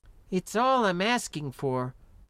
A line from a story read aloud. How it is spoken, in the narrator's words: the young woman muttered